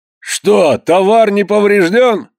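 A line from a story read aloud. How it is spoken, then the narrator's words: Shout. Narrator (Russian): крикнул молчальник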